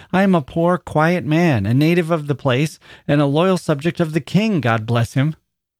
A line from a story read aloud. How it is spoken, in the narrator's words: cried Rip, somewhat dismayed